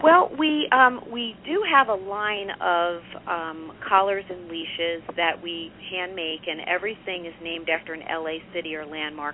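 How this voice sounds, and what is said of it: Slight New York accent. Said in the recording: “I thought I recognized a little New York in your accent.”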